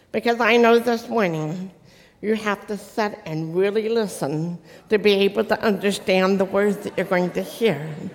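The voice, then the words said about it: Noticeable foreign accent. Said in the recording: “I know I still talk funny ... You really have an accent.”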